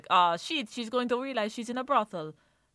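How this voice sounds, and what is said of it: Unconvincing attempted French accent. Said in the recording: “I don't know what that accent was. ... Definitely not French.”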